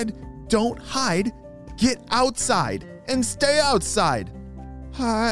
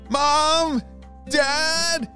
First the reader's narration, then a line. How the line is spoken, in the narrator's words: shouted Mateo